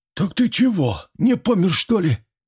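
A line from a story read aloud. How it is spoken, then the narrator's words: Breathless exhale. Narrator (Russian): выдохнул Митрич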